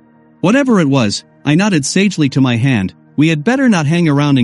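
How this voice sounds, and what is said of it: Usual voice. Nothing is said of it.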